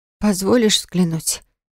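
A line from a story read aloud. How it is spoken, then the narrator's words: Hoarse question. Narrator (Russian): хрипло спросила я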